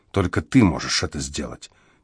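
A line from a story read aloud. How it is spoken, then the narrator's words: Quiet. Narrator (Russian): тихо проговорила она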